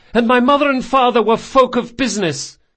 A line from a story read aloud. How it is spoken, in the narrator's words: he yelled